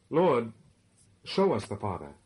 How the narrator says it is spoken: exclaimed Philip

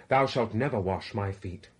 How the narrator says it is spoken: With great emphasis exclaimed

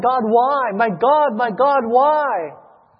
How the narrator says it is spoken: he cried

